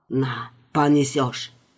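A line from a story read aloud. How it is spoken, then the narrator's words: Commanding whisper. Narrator (Russian): нетерпящим возражений шепотом приказал Касим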